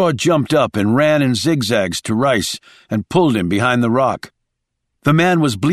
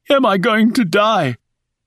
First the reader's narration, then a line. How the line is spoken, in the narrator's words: gasped Rice as he came to